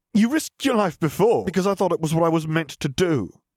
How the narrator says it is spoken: Harry snapped

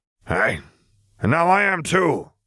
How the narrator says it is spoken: Moody growled

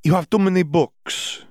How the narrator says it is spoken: she declared

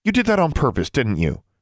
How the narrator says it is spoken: she asked sharply

